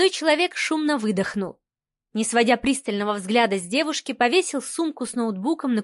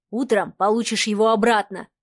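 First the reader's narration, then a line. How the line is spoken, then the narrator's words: Man's hmph. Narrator (Russian): хмыкнул мужчина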